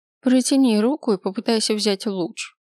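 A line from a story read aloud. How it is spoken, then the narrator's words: Bored tone. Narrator (Russian): скучающим тоном произнесла видящая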